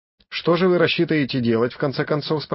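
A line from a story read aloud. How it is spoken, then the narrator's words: Plain. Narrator (Russian): спросил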